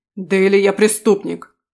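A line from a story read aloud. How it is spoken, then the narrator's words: Barking. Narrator (Russian): рявкнул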